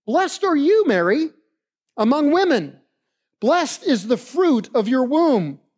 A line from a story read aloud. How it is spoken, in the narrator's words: Elizabeth exclaimed with a loud cry